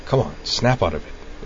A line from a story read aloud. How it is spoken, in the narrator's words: Utina muttered out of the side of her mouth